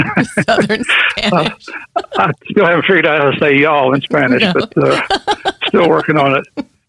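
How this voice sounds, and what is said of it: Southern US accent. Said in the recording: “you can tell with my, accent here, I'm a Southern boy”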